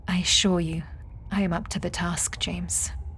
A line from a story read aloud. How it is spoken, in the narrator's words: said gently